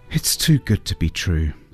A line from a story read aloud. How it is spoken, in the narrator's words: sighed the clown, deep down